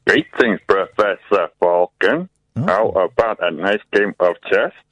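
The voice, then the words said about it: Bad robot voice. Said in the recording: “This is the worst robot voice I've ever heard.”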